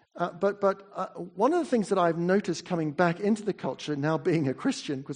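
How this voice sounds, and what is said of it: Slight English-sounding accent. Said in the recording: “I speak with a bit of an English accent. I'm a Kiwi.”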